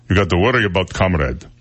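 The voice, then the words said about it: Imperfect put-on Russian accent. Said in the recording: “The one I can do is Russian. I've been working on Russian. It's hard to do Russian. You got to do down in throat like this ... I don't quite have it down.”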